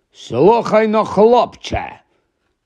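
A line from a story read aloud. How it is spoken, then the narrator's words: Growling. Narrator (Ukrainian): прогарчав дядько до Гаррі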